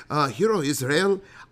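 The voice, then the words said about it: Attempted Irish accent. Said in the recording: “I don't know how you do the Irish voice.”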